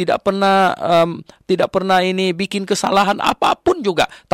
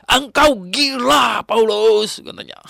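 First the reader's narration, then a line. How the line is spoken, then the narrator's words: Loud. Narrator (Indonesian): katanya kan dengan suara keras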